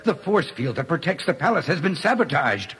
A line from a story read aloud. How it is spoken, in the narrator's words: he cried out